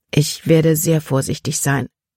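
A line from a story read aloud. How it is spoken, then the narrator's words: Plain. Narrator (German): sagte sie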